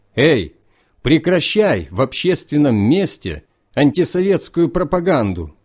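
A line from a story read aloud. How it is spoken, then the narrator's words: Shouted. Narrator (Russian): Один из этих троих крикнул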